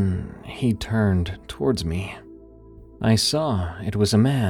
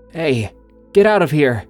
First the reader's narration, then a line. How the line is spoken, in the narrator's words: In my sleepy state, I called out